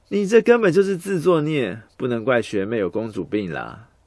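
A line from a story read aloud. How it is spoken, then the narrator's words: Mocking laughter. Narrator (Chinese): 家政夫当场嘲笑起来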